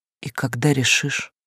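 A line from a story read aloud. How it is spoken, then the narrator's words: Quiet question. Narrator (Russian): спросила тихо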